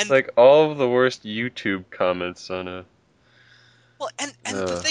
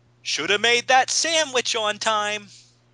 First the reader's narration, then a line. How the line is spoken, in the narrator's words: this guy yells